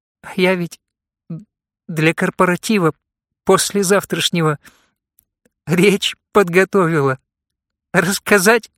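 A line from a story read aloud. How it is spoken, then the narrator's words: Forced out, starting to sob. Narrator (Russian): выдавила из себя Екатерина, начав всхлипывать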